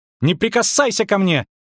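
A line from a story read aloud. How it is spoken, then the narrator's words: Shrieking. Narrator (Russian): взвизгнула она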